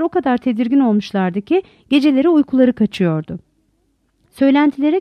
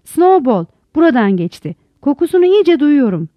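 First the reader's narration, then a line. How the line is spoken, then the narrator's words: Shouting. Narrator (Turkish): diye bağırıyordu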